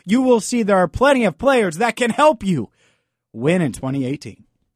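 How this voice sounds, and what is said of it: Yelling, loud excited speech. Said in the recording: “sorry for yelling.”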